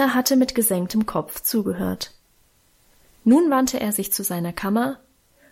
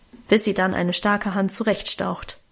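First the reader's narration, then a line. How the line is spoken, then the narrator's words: Grumbled. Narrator (German): brummte Auguste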